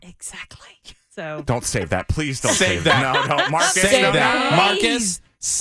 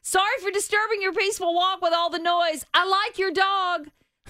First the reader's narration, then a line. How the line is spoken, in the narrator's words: He yelled out